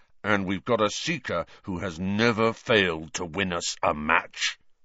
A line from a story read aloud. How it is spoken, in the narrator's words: Wood rumbled, with a kind of furious pride